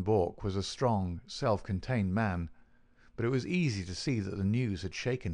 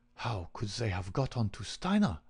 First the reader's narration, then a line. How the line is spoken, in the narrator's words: he muttered